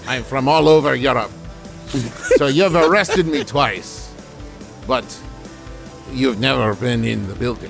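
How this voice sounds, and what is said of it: Poor put-on German accent. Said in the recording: “I'm doing the wrong accent ... You have never heard a German person speak in your life.”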